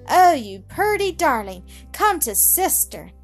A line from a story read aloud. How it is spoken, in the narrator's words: cried the little girl